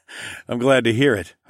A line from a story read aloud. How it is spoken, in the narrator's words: I chuckled